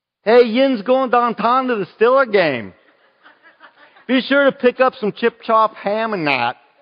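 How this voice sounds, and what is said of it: Put-on Pittsburgh accent. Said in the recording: “we have a Pittsburgh accent ... that kind of accent”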